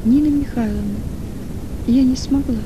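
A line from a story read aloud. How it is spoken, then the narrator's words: Quiet. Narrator (Russian): ответила тихо Маргарита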